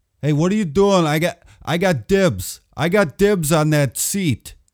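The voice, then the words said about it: Put-on Boston accent. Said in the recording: “Let's hear your best Boston accent ... I'll try one here ... That was my Boston accent. Not bad, hey?”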